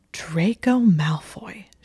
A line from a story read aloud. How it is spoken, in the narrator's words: said, hissing with indignation